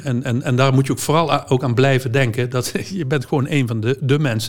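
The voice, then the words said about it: Southern Dutch soft G accent. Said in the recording (Dutch): “De zachte G.”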